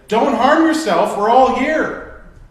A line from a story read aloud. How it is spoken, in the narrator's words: Paul shouted